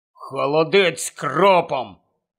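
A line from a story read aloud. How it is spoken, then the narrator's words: Gloomy mutter. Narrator (Ukrainian): похмуро буркнув він гладкій пані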